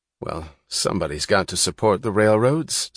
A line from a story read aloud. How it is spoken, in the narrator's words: said Taggart sullenly